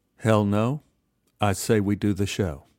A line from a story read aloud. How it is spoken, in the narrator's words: Holly quietly said